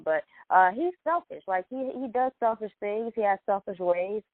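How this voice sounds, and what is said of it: Stuffy, congested voice. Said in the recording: “I have a cold, ... you can hear me through the phone.”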